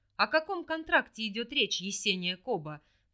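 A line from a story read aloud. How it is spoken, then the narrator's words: Angry interruption, stressed name. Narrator (Russian): прервал Биана, зло хмыкнув и голосом выделяя мое имя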